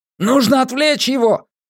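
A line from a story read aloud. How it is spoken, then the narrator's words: Shouted over storm. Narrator (Russian): крикнул Джеспер сквозь шторм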